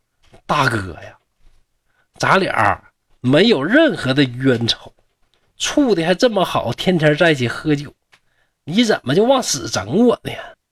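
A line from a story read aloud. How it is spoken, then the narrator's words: Laughing. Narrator (Chinese): 陆判官笑着说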